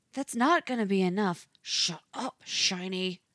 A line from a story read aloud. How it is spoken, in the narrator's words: he hisses over 27's protest